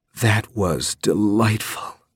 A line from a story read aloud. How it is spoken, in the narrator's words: purred, with a slight hoarseness in her voice now